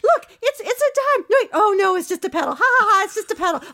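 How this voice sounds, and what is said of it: Mocking imitation of her kids. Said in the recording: “you did your kids mimicking us looking for change”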